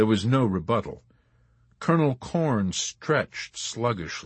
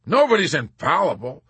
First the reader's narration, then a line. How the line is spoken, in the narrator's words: Colonel Cathcart said sharply, and then continued vaguely with an afterthought